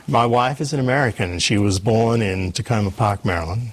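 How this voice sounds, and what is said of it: Australian accent. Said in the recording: “I'm an Australian, as you can probably tell from my accent.”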